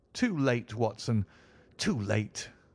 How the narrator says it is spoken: cried Holmes

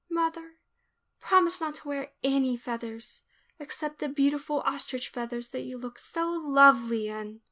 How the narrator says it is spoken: whisper

